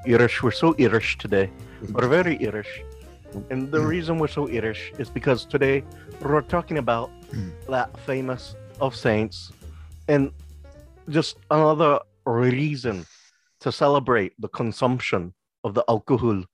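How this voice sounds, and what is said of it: Put-on Irish accent, sounds Scottish. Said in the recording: “why he keeps doing a Scottish accent ... My best Irish accent that I can fucking pull out my ass”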